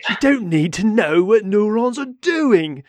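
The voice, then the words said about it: Imitates another person's voice. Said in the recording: “I can hear John Krakauer just seething right now ... that was my poor impersonation.”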